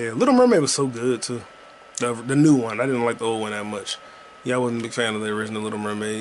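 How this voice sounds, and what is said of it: Usual voice. Nothing is said of it.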